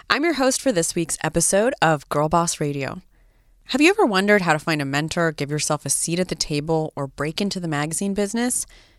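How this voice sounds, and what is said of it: Congested voice from a cold. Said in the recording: “I have a little bit of a cold, if you can hear it.”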